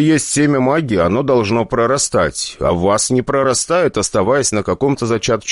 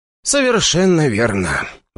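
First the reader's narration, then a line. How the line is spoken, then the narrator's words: Sighing. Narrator (Russian): ответил мне Игорь и вздохнул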